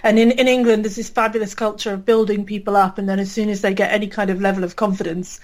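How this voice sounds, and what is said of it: British accent. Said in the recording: “I can probably tell from my accent, I'm British.”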